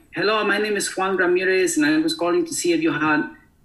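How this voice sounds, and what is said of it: Put-on Hispanic accent. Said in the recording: “a Hispanic accent”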